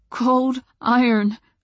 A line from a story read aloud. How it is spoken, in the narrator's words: my voice jittered with adrenaline